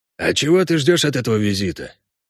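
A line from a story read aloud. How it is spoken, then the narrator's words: Quiet question. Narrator (Russian): тихо спросил кобальт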